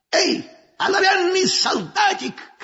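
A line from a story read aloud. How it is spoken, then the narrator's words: Troll shouting. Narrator (Russian): крикнул тролль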